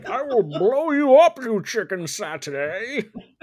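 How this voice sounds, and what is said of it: Bane character voice impression. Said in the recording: “my Bane impression ... him from Harley Quinn, where all he does is threaten to blow things up”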